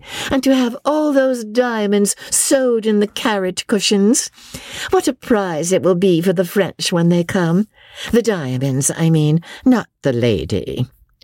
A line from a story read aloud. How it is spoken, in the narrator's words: she said loudly